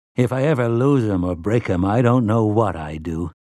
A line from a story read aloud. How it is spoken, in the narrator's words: he'd said